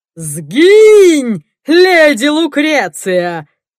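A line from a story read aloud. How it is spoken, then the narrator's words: Shouting with devilish laughter. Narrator (Russian): С дьявольским смехом кричал Соумс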